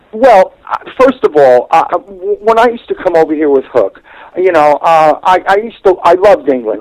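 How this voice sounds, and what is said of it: American accent. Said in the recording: “I know you're a colonial. People are picking up on the accent.”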